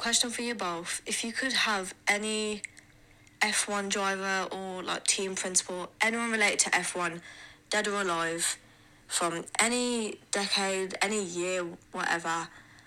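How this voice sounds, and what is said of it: Brummie accent, congested flat voice. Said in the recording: “Hay fever has me in a chokehold, so I sound dead. Please allow the accent as well. She's a Brummie.”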